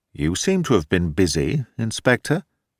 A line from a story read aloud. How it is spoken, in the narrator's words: Thorndyke turned to the detective and remarked dryly